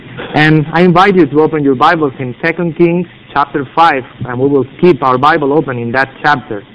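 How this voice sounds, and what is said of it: Foreign accent in English. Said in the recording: “my accent is going not to be a distraction”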